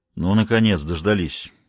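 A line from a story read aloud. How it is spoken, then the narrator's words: Sarcastic grumble. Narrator (Russian): саркастически проворчал Райм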